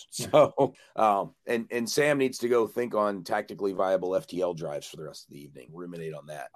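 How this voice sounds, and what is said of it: Hoarse voice from a cold. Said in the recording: “I got a cold and I'm losing my voice.”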